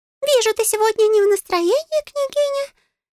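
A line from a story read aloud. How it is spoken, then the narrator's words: Frightened squeak. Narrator (Russian): испуганно пропищал Густав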